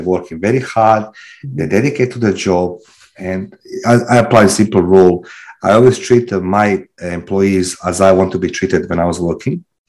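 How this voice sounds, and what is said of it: Non-native English accent. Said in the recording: “I love your accent ... I think you sound fabulous ... the non-English speaking person”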